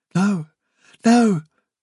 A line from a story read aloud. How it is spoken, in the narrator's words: cried Fiver